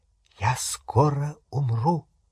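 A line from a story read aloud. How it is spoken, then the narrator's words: Whisper. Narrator (Russian): прошептал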